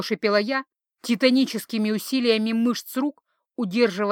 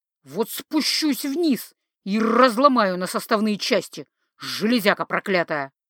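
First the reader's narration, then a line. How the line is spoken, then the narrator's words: Agitated growling. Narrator (Russian): нервно метался внизу, рычал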